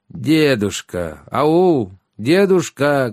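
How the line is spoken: Loud calling. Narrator (Russian): громко произнес Щавель

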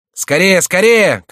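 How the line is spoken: Shouting. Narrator (Russian): кричал Шико

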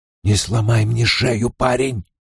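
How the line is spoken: Hoarse whisper. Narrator (Russian): хриплый шепот Тема

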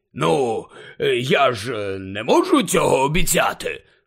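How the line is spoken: Hoarse grumble. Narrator (Ukrainian): хрипко буркнув

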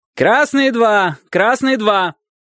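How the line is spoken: Shouting coach. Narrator (Russian): прокричал тренер

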